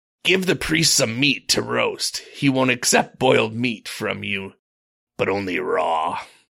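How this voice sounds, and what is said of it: Pirate accent. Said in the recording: “I don't know why they went pirate, but it just felt very piratey ... I like the accent.”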